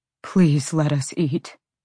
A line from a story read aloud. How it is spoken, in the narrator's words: begged Bronson's deep, rumbling voice from the other room